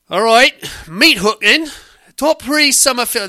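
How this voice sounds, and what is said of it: Attempted Australian accent, sounding Cockney. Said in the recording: “read it in Australian accent ... That's Cockney. That is total Cockney.”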